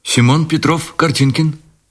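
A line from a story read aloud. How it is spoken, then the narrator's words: Quick, crackling voice. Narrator (Russian): быстро проговорил он трескучим голосом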